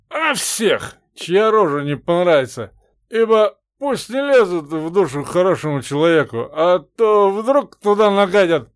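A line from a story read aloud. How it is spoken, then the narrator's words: Drunken explanation. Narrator (Russian): пьяным голосом пояснил Степан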